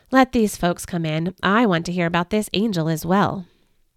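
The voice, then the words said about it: Tired-sounding voice. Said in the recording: “in a tired voice”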